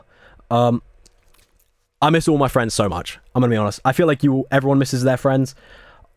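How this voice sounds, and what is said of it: Smiling, cheerful voice. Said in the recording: “you can hear the smile in my voice”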